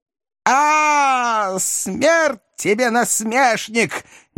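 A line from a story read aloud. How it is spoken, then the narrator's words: Distorted enraged howl. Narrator (Russian): не своим голосом взвыл хозяин дома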